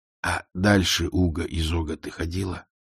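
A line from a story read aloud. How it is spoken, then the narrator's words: Hissed. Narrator (Russian): прошипел он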